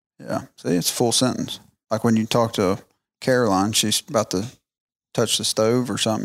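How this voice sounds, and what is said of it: Noticeable accent. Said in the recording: “can listen to my accent.”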